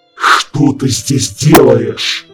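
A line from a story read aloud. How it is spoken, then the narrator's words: Furious growl. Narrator (Russian): прорычал он, чувствуя, что еще немного, и этот нахал поплатится за свои похождения по гостям сломанной челюстью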